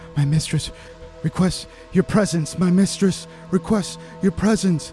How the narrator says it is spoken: she's just screaming

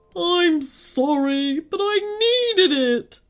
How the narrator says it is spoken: sobbed the giant

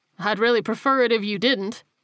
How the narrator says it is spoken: Rogers laughed

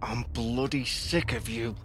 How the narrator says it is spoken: Through gritted teeth, he muttered

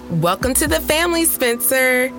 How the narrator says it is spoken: they said in unison cheerfully

